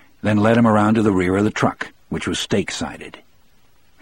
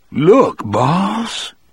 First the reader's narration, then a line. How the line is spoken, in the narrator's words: he cried in a low, rapturous voice